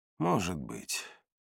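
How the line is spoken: Sigh. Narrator (Russian): вздохнул я

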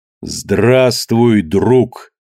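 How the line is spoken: Slow, careful enunciation. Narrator (Russian): Медленно и старательно выговаривая слова, сказал Кидога

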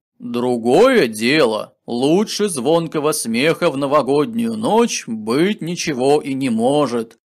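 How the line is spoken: Loud deep laughter, old man. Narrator (Russian): Закатившись громким басистым хохотом, произнес Дед Мороз

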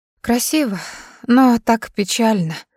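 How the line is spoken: Sighing. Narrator (Russian): вздохнула Юми

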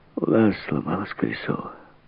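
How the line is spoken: Muttered. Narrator (Russian): пробормотала

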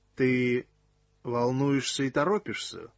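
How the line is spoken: Slow. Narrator (Russian): медленно произнес он

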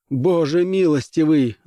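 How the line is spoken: Loud yell. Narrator (Russian): завопил

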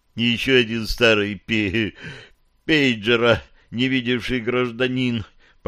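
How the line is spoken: Groan. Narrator (Russian): простонал Фил

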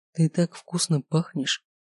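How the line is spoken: Whisper. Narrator (Russian): слышу я его шепот

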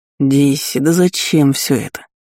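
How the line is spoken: Annoyed drawl. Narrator (Russian): С досадой протянул первый

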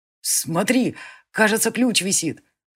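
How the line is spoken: Joyful boy speaking. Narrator (Russian): радостно сказал мальчишка

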